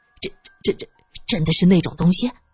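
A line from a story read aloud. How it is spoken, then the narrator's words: Trembling voice. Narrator (Chinese): 玉伟声音发颤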